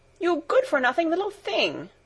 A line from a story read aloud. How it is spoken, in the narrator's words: exclaimed Data angrily